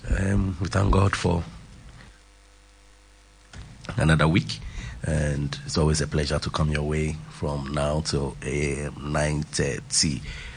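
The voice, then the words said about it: Voice slightly off from cold. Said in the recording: “my voice is a bit off due to some little cold.”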